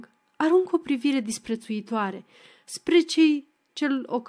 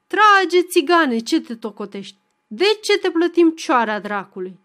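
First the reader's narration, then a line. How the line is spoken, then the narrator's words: Young men shouting roughly. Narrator (Romanian): Alți flăcăi strigă boruncitor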